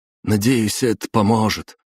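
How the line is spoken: Sad soldier. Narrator (Russian): грустно проговорил один из бойцов

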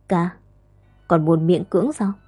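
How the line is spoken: Deep sigh. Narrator (Vietnamese): Bàng Thi Thi thở dài sâu kín, nói ra

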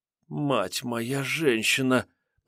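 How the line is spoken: Upset muttering, watchwoman. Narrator (Russian): пробормотала расстроенно сторожиха

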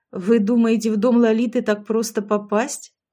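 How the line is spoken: Skeptical snort. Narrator (Russian): хмыкнул дядя Леша

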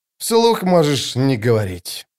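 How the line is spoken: Sigh. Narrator (Russian): вздохнул Остряк

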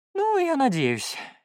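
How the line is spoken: Sighing. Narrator (Russian): Феликс вздохнул

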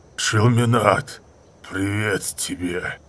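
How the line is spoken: Rough, garbled growl. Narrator (Russian): прорычал он грубо и скомканно

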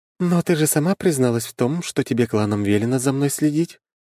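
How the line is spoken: Sighing. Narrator (Russian): вздохнула Виктория

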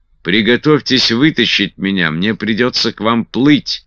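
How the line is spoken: Shouted. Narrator (Russian): крикнул Гуд

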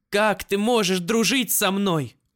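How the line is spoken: Shouted. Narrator (Russian): Выкрикнула Марена

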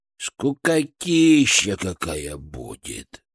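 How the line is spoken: Sighed. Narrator (Russian): вздохнул Фырк

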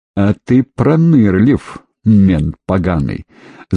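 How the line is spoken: Angry words through teeth. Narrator (Russian): зло процедила она

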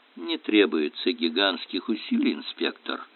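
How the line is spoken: Dry explanation. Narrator (Russian): сухо пояснил Эллери

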